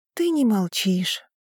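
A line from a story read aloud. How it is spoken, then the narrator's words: Sighing. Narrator (Russian): вздохнула я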